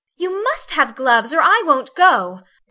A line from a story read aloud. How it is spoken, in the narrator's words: cried Meg decidedly